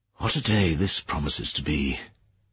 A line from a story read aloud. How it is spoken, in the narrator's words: he said quietly